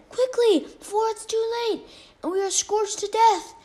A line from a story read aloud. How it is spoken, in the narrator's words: Maui yelled again